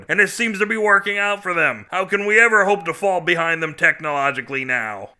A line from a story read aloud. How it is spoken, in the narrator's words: General Invader bellowed